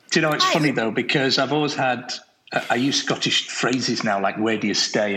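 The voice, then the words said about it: Northern English accent. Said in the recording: “I'm surprised that you have an English accent ... I grew up in the north of England”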